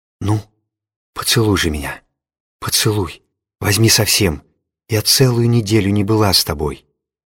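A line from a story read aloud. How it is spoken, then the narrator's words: Whispering. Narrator (Russian): зашептала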